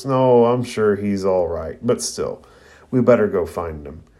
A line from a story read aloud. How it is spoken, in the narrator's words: Neji kind of laughs and remarks